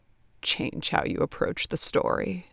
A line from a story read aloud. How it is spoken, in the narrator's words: Ted muttered